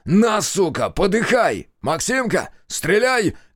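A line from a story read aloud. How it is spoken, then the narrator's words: Shouted from the side. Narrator (Russian): крикнул сбоку знахарь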